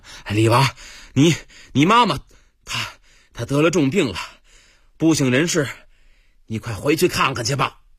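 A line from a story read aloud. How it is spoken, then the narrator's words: Breathless, panting. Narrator (Chinese): 一个人满头大汗奔进来了，气喘吁吁的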